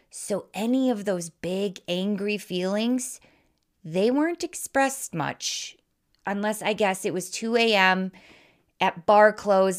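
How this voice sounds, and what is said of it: Wisconsin Midwestern American accent. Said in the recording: “I was raised in Wisconsin, if you can't tell by my accent, which is known for Midwest nice”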